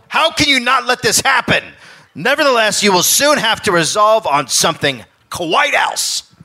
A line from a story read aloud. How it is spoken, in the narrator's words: Cornelius flipped out and yelled